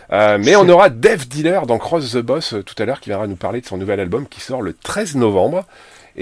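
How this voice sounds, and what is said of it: Northern French accent. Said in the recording (French): “avec mon accent du Nord”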